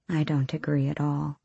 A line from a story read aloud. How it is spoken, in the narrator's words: she murmured, eyelids drooping